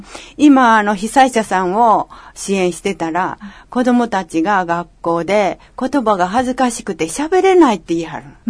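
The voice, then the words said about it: Kansai Japanese accent. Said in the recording (Japanese): “私はもう関西弁しか喋られへんからね。はい、関西弁喋ってて”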